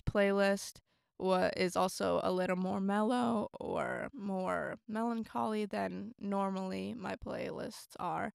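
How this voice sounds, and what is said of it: Sick-sounding voice. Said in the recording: “sorry for my voice too, I'm sick.”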